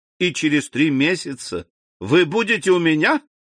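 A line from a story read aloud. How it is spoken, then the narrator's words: Joyful exclamation. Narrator (Russian): радостно воскликнул Альбер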